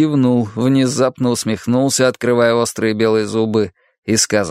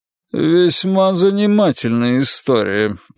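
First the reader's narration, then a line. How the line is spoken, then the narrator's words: Grumbled. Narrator (Russian): проворчал судья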